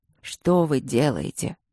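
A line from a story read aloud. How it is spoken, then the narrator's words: Weary question. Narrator (Russian): устало поинтересовался Мариан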